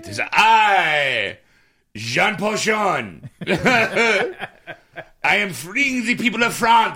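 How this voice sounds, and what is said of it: Bad put-on French accent. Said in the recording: “I will do the bad French ... expect this accent next week ... He's an Irish Frenchman.”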